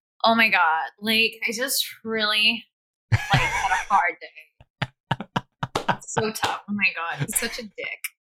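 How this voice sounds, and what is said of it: Put-on LA American accent. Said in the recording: “can you do an American accent? ... That's an LA accent.”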